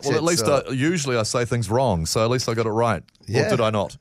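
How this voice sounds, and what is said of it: New Zealand accent. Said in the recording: “it would be said with a Kiwi accent ... In a Kiwi accent ... you enhanced it with your accent”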